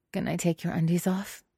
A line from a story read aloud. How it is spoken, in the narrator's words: She mumbles into Hua Cheng's happy trail